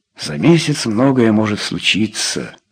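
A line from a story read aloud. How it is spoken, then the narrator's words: Said gloomily. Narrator (Russian): уныло сказал Рой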